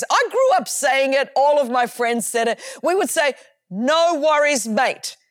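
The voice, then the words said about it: Australian accent. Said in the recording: “as you can tell from my accent, I grew up in Australia, in Sydney, Australia”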